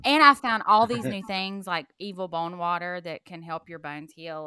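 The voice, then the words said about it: Noticeable accent. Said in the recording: “your accent makes you say evil bone water”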